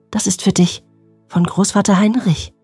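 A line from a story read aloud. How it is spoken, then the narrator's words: Gentle voice. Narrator (German): sagte mit sanfter Stimme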